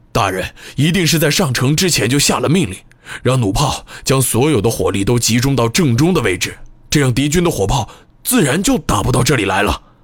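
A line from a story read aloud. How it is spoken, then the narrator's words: Sudden loud shout. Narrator (Chinese): 以次普突然大声喊道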